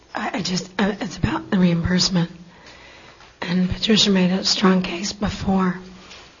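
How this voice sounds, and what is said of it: Strained, whispery voice. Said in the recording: “I'm sorry to make you talk or whisper ... Clearly my throat isn't keeping me from talking”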